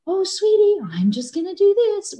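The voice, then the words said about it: Sweet, soothing mom voice. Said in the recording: “instead of using my mom voice,”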